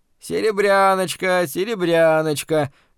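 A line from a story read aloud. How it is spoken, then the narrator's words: Hoarse shouting. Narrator (Russian): хрипло выкрикивал третий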